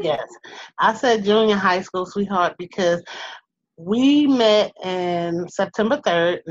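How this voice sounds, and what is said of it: New York accent. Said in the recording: “I hear an accent... I have that New York-esque accent”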